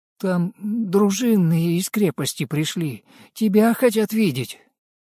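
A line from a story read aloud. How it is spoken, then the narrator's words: Frightened. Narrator (Russian): Дамир испуганно сказал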